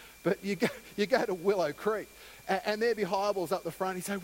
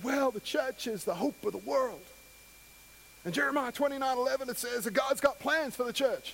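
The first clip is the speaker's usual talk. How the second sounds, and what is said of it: Bill Hybels impression, Southern Baptist preacher. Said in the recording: “I can't do a good Hybels impersonation... Actually, I sound like a Southern Baptist preacher, not Bill Hybels”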